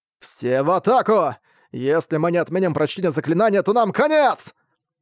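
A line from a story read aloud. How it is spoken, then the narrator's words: Shouted. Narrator (Russian): прокричал Арк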